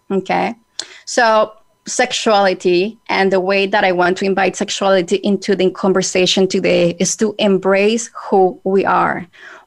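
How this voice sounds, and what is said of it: Spanish accent. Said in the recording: “excuse my Spanish accent”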